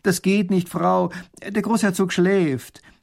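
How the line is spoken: Calling out. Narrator (German): Erich ruft ihr zu

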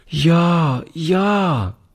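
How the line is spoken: Little girl calling. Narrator (German): rief die Kleine

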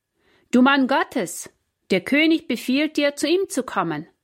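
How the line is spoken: Captain calling out. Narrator (German): rief der Hauptmann

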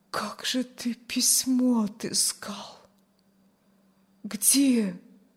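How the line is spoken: Barely audible. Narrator (Russian): Чуть слышно вымолвила Аня

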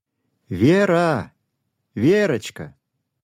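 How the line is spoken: Loud calling. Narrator (Russian): громко позвала мама

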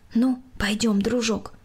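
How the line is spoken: Quiet. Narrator (Russian): Екатерина тихо сказала

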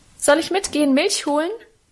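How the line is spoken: Cheerful call. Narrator (German): rief ich ihm munter zu

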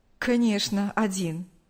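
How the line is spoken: Smirk. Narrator (Russian): усмехнулся Павел

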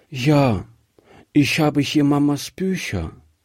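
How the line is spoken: Sad little girl. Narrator (German): sagte die Kleine traurig

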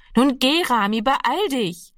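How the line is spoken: Called out. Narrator (German): rief ihm Annegret noch einmal zu

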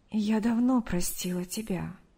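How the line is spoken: Soft reply. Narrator (Russian): мягко ответила Мария

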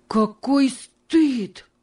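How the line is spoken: Exclaimed. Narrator (Russian): воскликнул он

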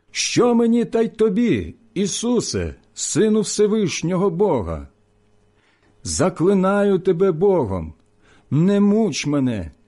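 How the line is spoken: Loud cry. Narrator (Ukrainian): закричав великим голосом

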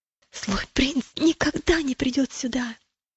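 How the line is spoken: Whisper. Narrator (Russian): он прошептал

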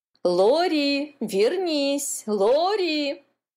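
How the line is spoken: Mother shouting. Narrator (Russian): кричала мама

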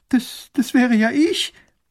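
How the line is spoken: Sobbing girl. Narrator (German): schluchzt das Mädchen

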